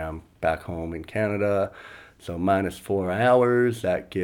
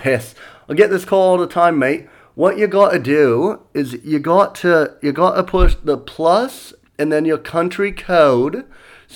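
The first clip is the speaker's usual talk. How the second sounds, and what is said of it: Put-on Australian accent sounding British. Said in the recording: “every time I try to do Australian, it sounds British.”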